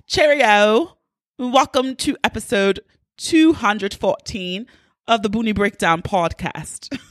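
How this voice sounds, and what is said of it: Put-on poor British accent. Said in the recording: “It took a lot of effort to do that because I normally only have a British accent when I am drunk ... please do not shun me for my terrible British accent”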